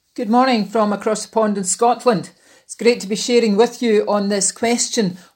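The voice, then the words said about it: Scottish accent. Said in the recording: “our friend ... chaplain at Shotts Prison in Scotland ... stay for the delightful accent.”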